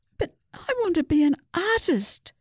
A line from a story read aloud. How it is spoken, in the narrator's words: Susie wailed